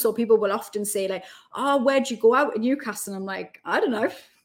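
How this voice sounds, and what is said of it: Posh Geordie accent. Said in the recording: “I'm now a posh Geordie ... you've kept your accent very well”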